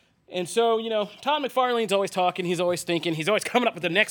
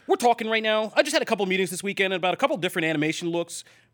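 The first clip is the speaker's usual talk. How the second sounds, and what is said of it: Imitates another person's voice. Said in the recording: “I'll try to do it in my best Todd voice.”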